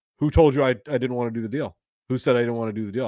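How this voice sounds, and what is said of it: Imitates another person's voice. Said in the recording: “Very good Joe impression.”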